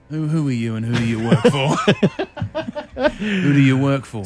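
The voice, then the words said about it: Put-on suave James Bond accent. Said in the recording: “He's got a bit of swagger ... Do I have to keep up the accent? ... That was good ... Nice bit of swagger about you.”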